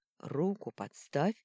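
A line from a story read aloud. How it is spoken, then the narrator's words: Hoarse wheeze. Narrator (Russian): прохрипел Итар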